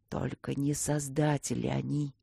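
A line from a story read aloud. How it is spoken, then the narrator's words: Old man's frightening whisper. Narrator (Russian): дед страшным шепотом произнес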